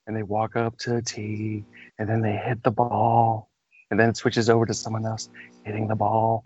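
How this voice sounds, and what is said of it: Low, slow golf commentator voice. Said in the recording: “very low, very slowly ... I was trying to do my golf commentator voice. ... very sexual ... It was like we were having phone sex.”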